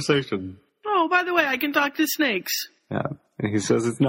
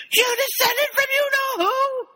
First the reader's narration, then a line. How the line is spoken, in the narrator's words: Ron shouts